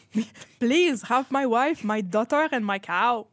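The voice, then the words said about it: Bad put-on Russian accent. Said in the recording (French): “c'est vraiment un mauvais accent russe”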